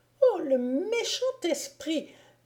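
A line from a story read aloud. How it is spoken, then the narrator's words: Exclaimed. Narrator (French): s'écria celle-ci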